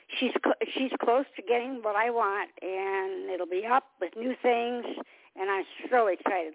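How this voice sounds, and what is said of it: Strained, fading voice. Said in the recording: “I'm losing my voice, and I don't know why ... I cannot talk ... when you start to lose your voice”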